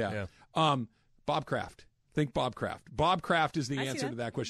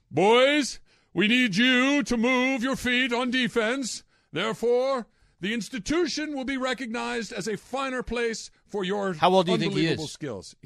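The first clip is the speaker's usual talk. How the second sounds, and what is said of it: Older man character voice. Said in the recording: “The guy that I'm channeling, when I'm doing the voice ... He's probably late 50s, early 60s.”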